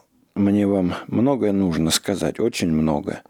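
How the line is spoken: Throat-clearing, halting breath. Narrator (Russian): Художник откашлялся, прерывисто вздохнул и сказал

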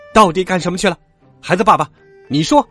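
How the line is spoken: Furious roar. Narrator (Chinese): 妈妈气得像母老虎似的大吼一声

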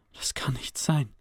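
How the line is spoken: Quiet. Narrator (German): sagte er leise

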